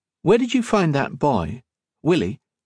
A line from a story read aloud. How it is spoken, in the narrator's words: Octavia asked